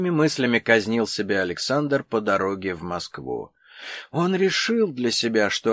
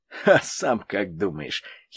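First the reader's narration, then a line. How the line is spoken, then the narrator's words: Forensic expert giggling. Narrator (Russian): хихикнул криминалист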